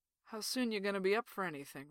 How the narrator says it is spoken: Ray says

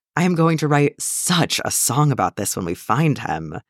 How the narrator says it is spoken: Yaskir sighs

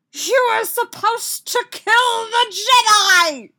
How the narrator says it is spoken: Sidious screamed at the goose

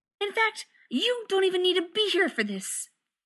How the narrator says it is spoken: he snapped at John

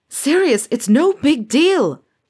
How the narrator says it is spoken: James shouted

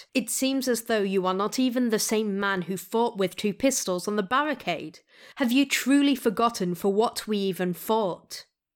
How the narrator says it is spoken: snapped

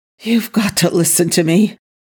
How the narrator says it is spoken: Daniel pleaded with the NID agents

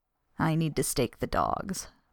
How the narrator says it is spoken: Buck muttered, grateful for the task

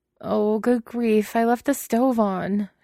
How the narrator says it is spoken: she wails

